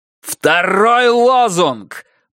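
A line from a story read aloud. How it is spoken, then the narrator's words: Roaring into a microphone. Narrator (Russian): проревел Стилсон в микрофон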